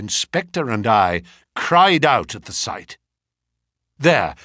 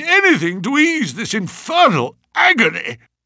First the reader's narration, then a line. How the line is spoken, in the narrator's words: cried